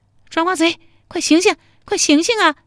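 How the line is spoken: Familiar female voice. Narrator (Chinese): 这声音好熟，还是个女的

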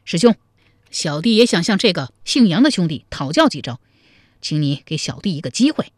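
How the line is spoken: Loud shout. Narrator (Chinese): 高怀德 高声叫道

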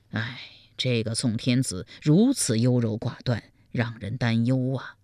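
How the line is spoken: Private sigh. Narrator (Chinese): 赵普暗自叹道

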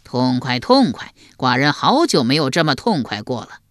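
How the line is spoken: Roaring laughter. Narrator (Chinese): 齐桓公又大笑，笑得前仰后合

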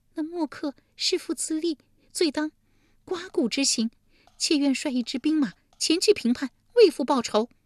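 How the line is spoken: Tearful complaint. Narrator (Chinese): 利基哭诉道

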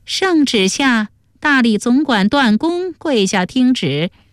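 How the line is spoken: Eunuch calling out. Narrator (Chinese): 宦官 叫道

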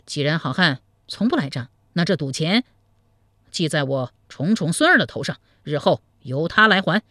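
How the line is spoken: Anger turned pleased. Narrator (Chinese): 监督转怒为喜说

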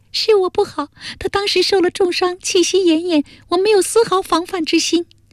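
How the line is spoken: Crying. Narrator (Chinese): 哭道

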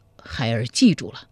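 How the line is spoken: Choked with tears. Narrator (Chinese): 柴荣哽咽着说

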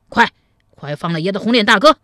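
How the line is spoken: Stern, harsh. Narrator (Chinese): 黑汉厉声说道

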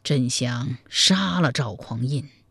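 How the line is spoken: Sighing. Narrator (Chinese): 柴荣长叹一声说道

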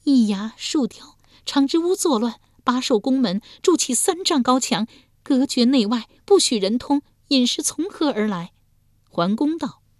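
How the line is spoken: Long sigh. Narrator (Chinese): 燕娥儿长叹一声道

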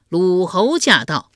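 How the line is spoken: Loud ceremonial announcement. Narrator (Chinese): 东郭牙高声唱道

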